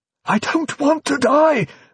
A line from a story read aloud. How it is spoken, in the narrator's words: the bishop pleaded frantically in his headphones, that rich, sermonizing voice now reduced to little more than an amphibian croak